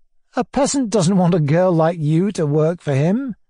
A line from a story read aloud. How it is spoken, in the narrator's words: I said, laughing